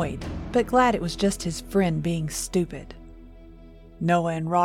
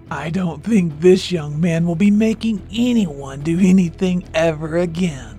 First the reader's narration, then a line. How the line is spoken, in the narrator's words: a raspy voice answered back